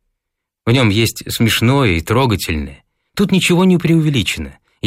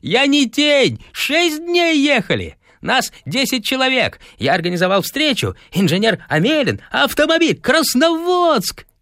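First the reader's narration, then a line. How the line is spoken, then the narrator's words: Parting shout. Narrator (Russian): крикнув еще напоследок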